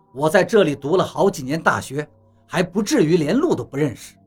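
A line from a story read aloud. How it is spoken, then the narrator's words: Cold. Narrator (Chinese): 王八冷冷地说道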